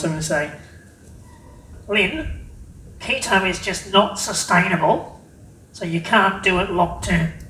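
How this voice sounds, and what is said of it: Skeptical naysayer character voice. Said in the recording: “my best naysayer voice ... And not the squeaky one, please.”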